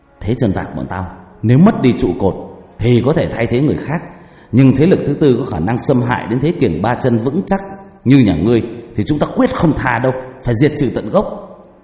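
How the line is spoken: Threatening voice. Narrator (Vietnamese): Bền nói bằng giọng đầy hăm dọa

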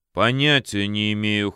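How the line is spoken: Cold reply. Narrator (Russian): холодно ответил генерал

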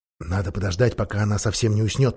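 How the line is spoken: Whisper. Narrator (Russian): прошептал Юстас

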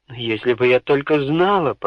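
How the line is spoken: Muttered. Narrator (Russian): пробормотала герцогиня

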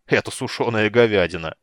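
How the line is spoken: Chuckling. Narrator (Russian): хохотнул Флинт

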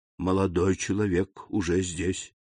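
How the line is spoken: Quiet reply. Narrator (Russian): ответил также тихо камердинер

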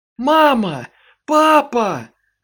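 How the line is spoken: Shouted. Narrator (Russian): закричала

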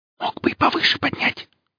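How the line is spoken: Whisper. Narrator (Russian): шепнула Оля

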